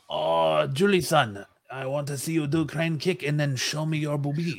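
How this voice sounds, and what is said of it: Mock Asian accent. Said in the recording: “he gets to mimic an Asian accent”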